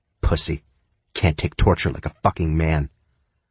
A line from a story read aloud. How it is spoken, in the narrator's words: she muttered